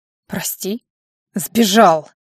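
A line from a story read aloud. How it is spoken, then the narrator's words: Bark. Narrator (Russian): Рявкнул Кароль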